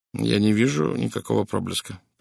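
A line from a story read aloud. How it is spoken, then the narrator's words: Muttered. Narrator (Russian): пробормотал он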